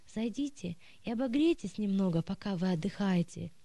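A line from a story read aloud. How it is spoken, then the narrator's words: Plain. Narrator (Russian): сказал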